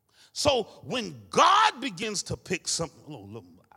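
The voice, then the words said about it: Preacher-style sermon delivery. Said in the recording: “I put my preacher voice on”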